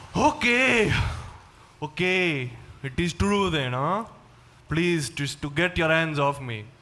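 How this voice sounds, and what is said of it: Put-on Swedish-Canadian accent. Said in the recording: “that accent ... this is a Swedish-Canadian accent”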